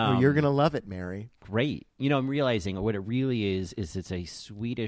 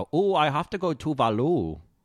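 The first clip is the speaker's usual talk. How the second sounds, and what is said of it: Awful Swedish-German accent. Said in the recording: “your like awful Swedish German accent”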